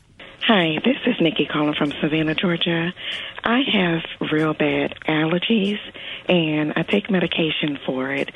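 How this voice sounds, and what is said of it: Slightly hoarse voice. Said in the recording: “you can probably hear that I'm a little hoarse”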